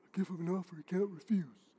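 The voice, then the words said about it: Poor Godfather character impression. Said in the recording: “worst Godfather impression”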